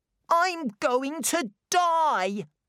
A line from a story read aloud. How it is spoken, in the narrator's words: cried Colin